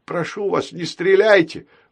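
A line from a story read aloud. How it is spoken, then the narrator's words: Pleading. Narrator (Russian): взмолился Баюн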